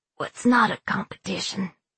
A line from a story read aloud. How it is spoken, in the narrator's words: Blake said, his voice soft and slurred